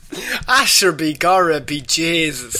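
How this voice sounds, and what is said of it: Deliberately bad Irish accent. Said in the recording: “a really bad Irish accent”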